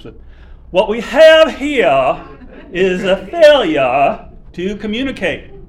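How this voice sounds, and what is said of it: Put-on Southern accent. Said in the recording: “this is my best Southern accent I'm going to do here”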